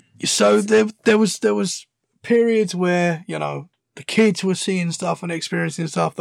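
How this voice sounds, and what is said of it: British accent. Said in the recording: “I like the British accent. I think it's funny.”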